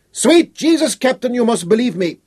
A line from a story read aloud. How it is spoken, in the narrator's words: Schroeder shouted